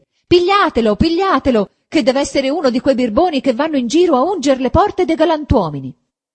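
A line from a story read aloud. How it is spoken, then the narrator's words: Shouting. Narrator (Italian): gridava anche lei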